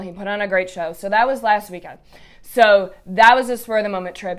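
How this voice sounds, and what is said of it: Raspy, congested voice. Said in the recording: “I get raspy like this. I just get super congested... that is why my voice sounds the way that it does”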